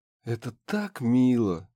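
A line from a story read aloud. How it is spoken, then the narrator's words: Sighing. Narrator (Russian): вздохнула Харми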